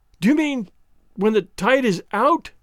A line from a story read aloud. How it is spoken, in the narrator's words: I cried, and could not finish